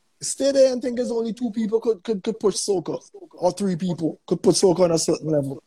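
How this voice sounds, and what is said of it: Americanized accent when speaking properly. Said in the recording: “Sorry for the freshwater Yankee accent. Somehow every time I try to speak properly, it just comes out this way.”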